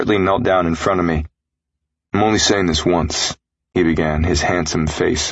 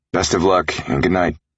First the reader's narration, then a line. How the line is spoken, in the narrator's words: Ricker grunted